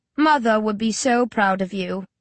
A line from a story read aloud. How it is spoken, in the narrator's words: Luca purrs sarcastically